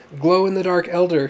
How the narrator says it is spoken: he exclaimed

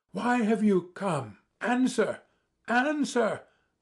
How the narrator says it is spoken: I cried, hardly knowing what I was doing

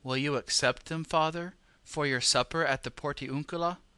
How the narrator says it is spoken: mother said

